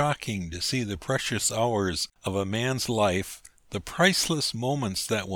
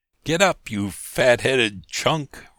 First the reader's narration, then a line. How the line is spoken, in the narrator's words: roared Harris